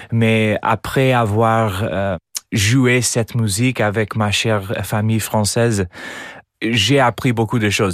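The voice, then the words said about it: American accent speaking French. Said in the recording (French): “j'ai un accent américain quand je parle français”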